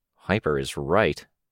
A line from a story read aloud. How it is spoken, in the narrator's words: Chris muttered